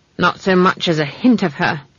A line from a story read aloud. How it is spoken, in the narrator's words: said Granny